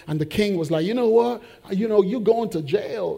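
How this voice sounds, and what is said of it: Put-on accent for a king. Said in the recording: “okay, not quite that accent.”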